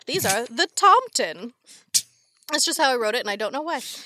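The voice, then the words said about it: Scandinavian-sounding accent. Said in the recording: “You went, like, completely opposite side of Europe with that accent.”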